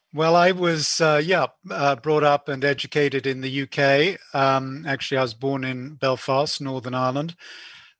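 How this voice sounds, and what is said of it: European accent. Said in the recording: “We love your accent already. We know you're from the from Europe.”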